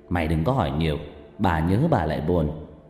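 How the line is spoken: Snapping father. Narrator (Vietnamese): Bố tôi gắt

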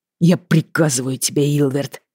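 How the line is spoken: Through gritted teeth. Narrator (Russian): процедил брат сквозь зубы

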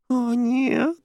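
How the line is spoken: Whining. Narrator (Russian): скулила Джуди

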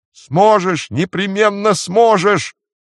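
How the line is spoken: Shout. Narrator (Russian): крикнул Рик

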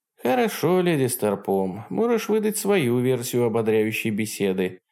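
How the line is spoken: Sighing. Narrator (Russian): вздохнула

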